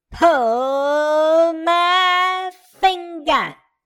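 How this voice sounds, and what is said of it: Yelled line in Southern accent. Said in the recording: “she yelled, ... in a dirty southern accent.”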